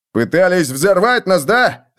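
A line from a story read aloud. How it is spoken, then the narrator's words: Barked from the stairs. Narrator (Russian): рявкнули с лестницы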